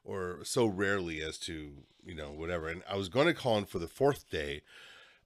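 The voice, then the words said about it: Slightly stuffy, congested voice. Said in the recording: “just like a chest and head cold ... super stuffy ... You can probably still hear it in my voice a little bit”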